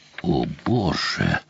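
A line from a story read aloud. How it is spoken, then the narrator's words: Whisper. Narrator (Russian): прошептал Сэм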